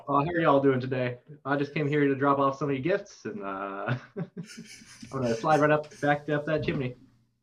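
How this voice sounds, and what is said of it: Redneck Santa Claus character voice. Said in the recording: “doing an impression of redneck Santa Claus ... That sounds like real Santa Claus. Maybe he is a redneck.”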